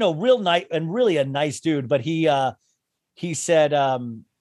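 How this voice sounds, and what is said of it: Usual voice. Nothing is said of it.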